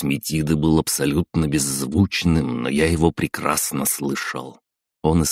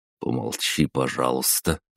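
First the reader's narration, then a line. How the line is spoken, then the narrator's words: Mumble. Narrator (Russian): пробормотал я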